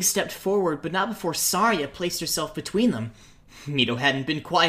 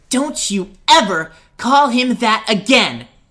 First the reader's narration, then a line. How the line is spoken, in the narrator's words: she snapped